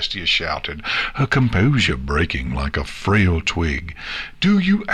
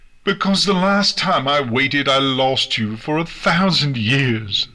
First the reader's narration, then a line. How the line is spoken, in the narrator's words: Celestia screamed